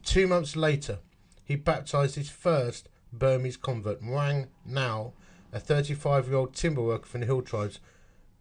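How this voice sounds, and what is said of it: Essex English accent. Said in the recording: “That's actually my accent. That is my Essex accent.”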